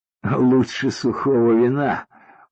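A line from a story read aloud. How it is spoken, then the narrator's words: Tired, smiling. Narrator (Russian): устало улыбнулся Паша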